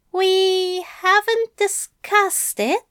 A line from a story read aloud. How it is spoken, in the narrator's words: Aziraphale says slowly